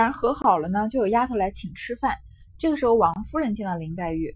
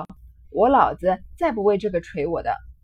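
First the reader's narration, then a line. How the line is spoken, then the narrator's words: Laughing. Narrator (Chinese): 宝玉笑道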